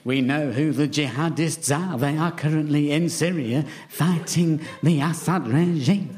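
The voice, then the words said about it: William Hague impression. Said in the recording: “I like the way you've had to retire that accent, but you just brought it back now. ... No, that wasn't Jimmy Savile. That was William Hague”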